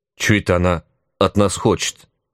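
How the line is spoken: Uncertain squeak. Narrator (Russian): неуверенно вякнул кто-то

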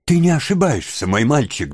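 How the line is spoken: Trembling voice, asking. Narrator (Russian): дрожащим голосом спросил он

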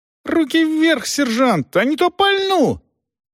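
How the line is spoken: Shouting. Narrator (Russian): прокричал

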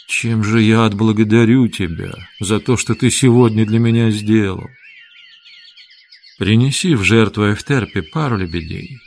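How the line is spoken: Quiet reply. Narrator (Russian): так же тихо ответил Петроний

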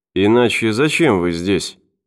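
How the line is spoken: Muttering doctor. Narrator (Russian): пробормотал врач

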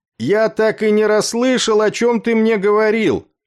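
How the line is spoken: Shouting. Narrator (Russian): прокричал Афрей

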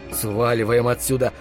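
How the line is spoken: Mutter. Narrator (Russian): пробормотал я

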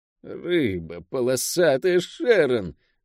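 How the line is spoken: Muttered through teeth. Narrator (Russian): сквозь зубы пробормотала Лавиани

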